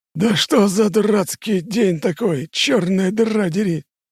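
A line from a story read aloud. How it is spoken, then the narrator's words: Hoarse, strained old man. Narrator (Russian): хрипит откуда-то слева Ксенакис, которому висение вниз головой точно на пользу не идет в его-то возрасте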